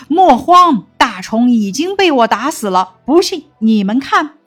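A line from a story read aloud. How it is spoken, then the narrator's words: Loud commanding shout. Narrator (Chinese): 武松……大声喝道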